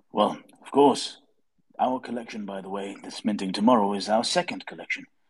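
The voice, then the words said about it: Deep voice. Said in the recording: “You have a deep voice as well.”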